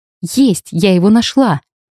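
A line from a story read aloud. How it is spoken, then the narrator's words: Triumphant exclamation. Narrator (Russian): Торжествующе воскликнула я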